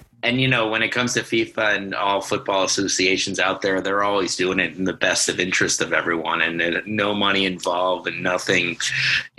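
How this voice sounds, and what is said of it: Sarcastic tone. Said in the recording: “That's me being sarcastic”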